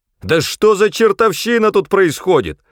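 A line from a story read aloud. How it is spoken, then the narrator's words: Yelling. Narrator (Russian): заорал я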